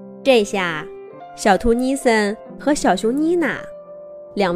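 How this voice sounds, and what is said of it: Usual voice. Nothing is said of it.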